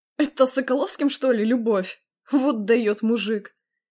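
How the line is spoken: Chuckle. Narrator (Russian): хохотнул Виктор

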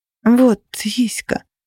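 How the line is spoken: Mother smiling through tears. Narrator (Russian): улыбнулась мама сквозь слезы

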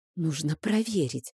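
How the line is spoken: Secretive whisper. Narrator (Russian): прошептала я, словно кто-то нас мог услышать

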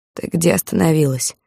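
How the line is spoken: Hoarse question. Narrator (Russian): охрипшим голосом спросил

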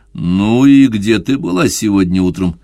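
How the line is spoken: Mumbled. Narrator (Russian): промямлил он

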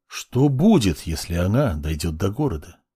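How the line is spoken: Cut-off start. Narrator (Russian): Начал было Белый

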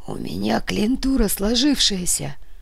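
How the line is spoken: Hoarse wheeze. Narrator (Russian): просипел банкир

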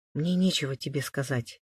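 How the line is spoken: Quiet. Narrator (Russian): тихо произнесла Мария

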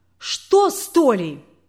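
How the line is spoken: Hysterical cry. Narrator (Russian): истерично вскрикнула свекровь

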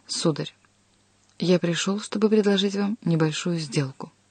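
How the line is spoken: Very serious tone. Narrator (Russian): ответил очень серьезным тоном

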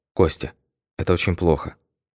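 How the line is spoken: Quiet. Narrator (Russian): Алла сжала мою руку и тихо сказала

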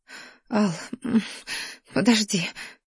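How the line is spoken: Breathless sob of pleasure. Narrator (Russian): всхлипнула я, умирая от слишком бурного потока наслаждения, который накрывал с головой

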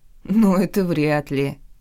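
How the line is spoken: Sincere laughter. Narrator (Russian): искренне рассмеялась я

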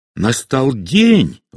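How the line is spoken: Exclaimed. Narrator (Russian): воскликнула она

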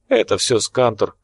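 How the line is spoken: Cheerful reply. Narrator (Russian): бодро ответил Келюс

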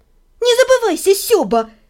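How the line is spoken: Habitual snapping. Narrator (Russian): Привычно огрызнулась я

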